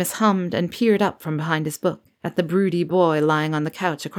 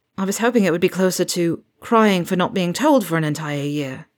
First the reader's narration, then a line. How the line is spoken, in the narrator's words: James groaned